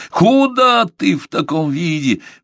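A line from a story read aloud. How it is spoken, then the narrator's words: Howling director. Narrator (Russian): взвыл директор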